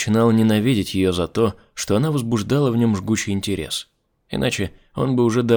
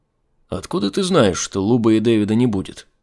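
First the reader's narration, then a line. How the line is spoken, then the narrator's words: Plain. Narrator (Russian): спросил Айзек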